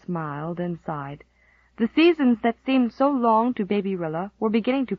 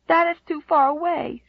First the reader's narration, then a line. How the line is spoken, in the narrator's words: she sobbed